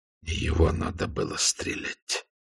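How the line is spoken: Spoken through gritted teeth. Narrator (Russian): сквозь зубы цедит Постышев

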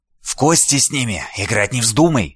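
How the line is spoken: Hissed. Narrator (Russian): прошипела она

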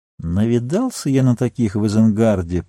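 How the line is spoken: Muttered. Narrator (Russian): пробормотал Мэри

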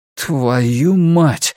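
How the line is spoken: Exhaled. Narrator (Russian): выдохнул Клай

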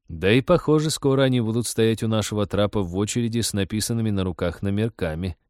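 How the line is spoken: Gloomy joke, captain. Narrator (Russian): мрачно пошутил капитан

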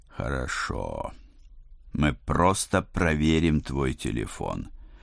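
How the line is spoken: Tired. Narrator (Russian): устало решил я

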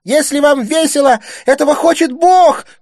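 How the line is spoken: Shouting. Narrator (Russian): кричала Стефания

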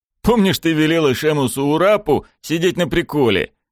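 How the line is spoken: Snorting. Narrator (Russian): Вуринам хмыкнул

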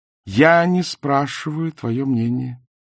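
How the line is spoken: Calm. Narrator (Russian): спокойно проговорил Найджел

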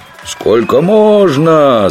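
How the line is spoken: Guests shouting, interrupting song. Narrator (Russian): закричали гости, прерывая неведомую жихарю песню

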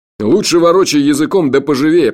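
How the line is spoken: Grumbling. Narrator (Russian): проворчал Джуфин

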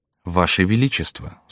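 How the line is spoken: Quiet, reverent. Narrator (Russian): сказала она тихо

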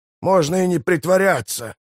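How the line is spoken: Growl. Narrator (Russian): прорычал Мураш

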